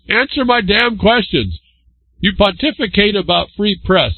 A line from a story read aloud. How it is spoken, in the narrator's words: he called out